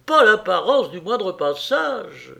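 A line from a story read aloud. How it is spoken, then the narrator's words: Exclaimed. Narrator (French): s'écria-t-il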